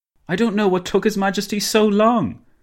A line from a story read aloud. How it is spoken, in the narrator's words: Dinglebrush exclaimed